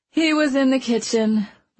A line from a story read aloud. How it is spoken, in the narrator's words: Mona explained wearily